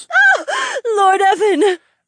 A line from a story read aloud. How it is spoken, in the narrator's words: Aliona squealed